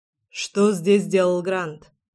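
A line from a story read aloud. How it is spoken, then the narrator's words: Harsh question. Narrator (Russian): спрашивает Адам жестким тоном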